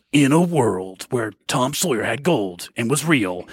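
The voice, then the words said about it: Imitates a movie trailer narrator voice. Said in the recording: “the JV movie trailer voice guy from the 80s”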